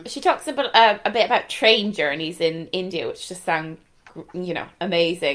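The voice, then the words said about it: Irish Galway accent. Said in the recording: “my Galway accent”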